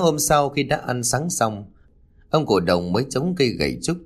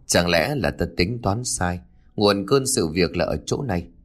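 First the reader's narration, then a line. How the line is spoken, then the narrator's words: Old man's thoughtful mutter. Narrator (Vietnamese): cụ vừa lẩm bẩm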